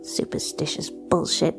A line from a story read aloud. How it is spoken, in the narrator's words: muttered Cassie